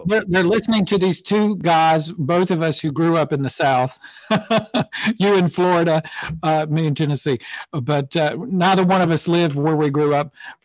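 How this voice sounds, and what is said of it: Southern American accent. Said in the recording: “my accent and my voice ... people so love the accent”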